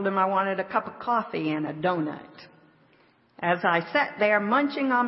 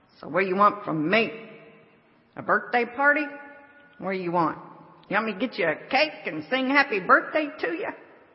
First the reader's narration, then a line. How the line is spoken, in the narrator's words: Her friend responded in a rather nasty tone